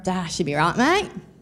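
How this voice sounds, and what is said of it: Put-on Australian accent. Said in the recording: “She loved when I try an Aussie accent.”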